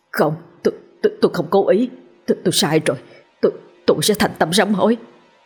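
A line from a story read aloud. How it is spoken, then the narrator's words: Trembling, stammering plea. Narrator (Vietnamese): giọng run run lắp bắp nói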